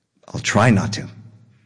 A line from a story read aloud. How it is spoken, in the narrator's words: Kamuda said